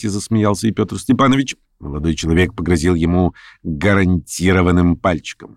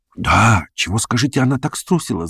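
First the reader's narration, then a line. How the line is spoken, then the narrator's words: Young man whispering. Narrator (Russian): зашептал им молодой человек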